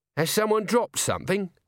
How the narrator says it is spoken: said Nobby nervously

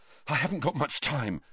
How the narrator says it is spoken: Harry panted

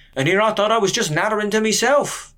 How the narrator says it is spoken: chirped

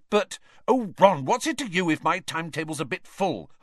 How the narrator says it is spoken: Hermione snapped

